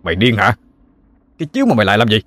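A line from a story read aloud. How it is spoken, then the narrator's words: Shouting. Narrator (Vietnamese): quát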